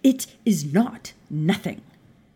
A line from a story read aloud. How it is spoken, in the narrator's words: Maya snapped